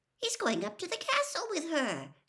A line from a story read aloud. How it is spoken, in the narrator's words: said Hermione indignantly